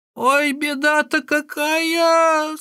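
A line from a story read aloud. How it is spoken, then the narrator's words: Old woman's cry. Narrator (Russian): вскрикнула старуха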